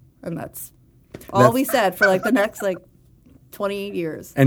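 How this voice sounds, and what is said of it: Usual voice. Nothing is said of it.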